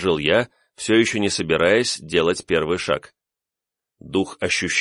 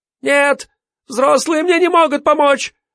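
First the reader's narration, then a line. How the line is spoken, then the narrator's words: Sudden furious scream. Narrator (Russian): Вдруг яростно закричала она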